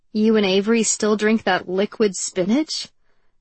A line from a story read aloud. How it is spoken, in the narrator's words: Atlas laughed